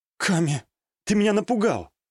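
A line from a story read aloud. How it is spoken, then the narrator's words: Relieved exhale. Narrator (Russian): Облегченно выдохнула девушка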